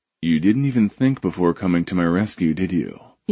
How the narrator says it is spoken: he asked, and his voice was as dark and smooth as everything else about him

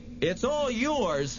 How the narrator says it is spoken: Harvey yelled

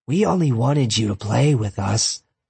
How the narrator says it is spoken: Cronus said, her voice seethed with malevolence

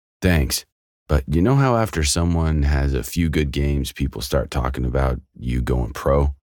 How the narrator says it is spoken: Cage chuckled

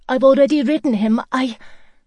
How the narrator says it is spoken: said, blurting it out

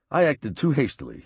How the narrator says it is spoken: he said

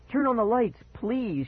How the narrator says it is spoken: she pleaded

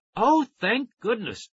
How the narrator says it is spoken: Tara cried

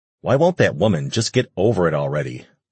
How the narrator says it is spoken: Lucas growled

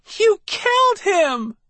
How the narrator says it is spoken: She cried up at me

